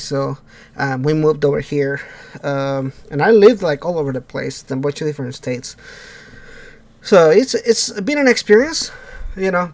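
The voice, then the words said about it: Thick Mexican accent. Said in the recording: “I didn't know you were Mexican. ... the thick accent”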